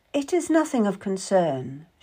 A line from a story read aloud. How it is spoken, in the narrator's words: was saying, in an unnaturally calm voice